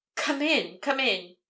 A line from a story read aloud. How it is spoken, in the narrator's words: exclaimed hastily